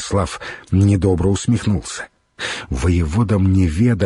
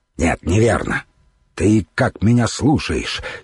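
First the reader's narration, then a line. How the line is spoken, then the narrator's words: Angry speech. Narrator (Russian): сердито произнес Святослав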